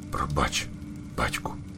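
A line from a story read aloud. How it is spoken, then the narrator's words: Small owlet's whisper. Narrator (Ukrainian): прошепотів малий пугач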